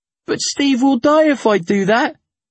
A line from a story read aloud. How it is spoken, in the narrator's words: I cried